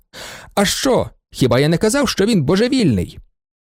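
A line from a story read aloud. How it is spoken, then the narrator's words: Shouted. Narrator (Ukrainian): доктор ... закричав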